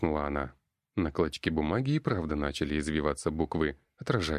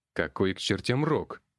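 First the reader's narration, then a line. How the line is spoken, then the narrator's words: Barked. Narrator (Russian): рявкнул я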